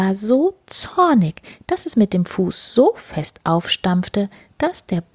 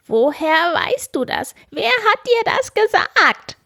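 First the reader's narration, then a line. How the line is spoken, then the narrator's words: Angry shout. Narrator (German): schrie das Männlein wütend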